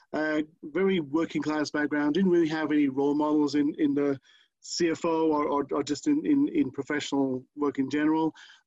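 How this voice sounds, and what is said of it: British accent. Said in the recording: “I grew up in the UK, you probably can guess by accent.”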